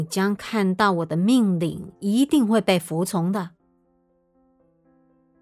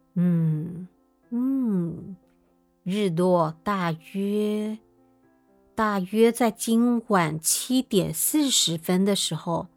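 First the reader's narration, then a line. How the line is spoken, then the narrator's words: Slow, king. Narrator (Chinese): 国王 嘴里慢慢说道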